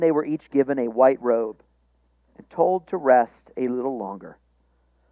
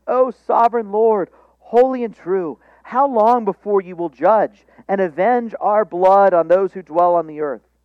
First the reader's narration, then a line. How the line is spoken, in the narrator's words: They cried out with a loud voice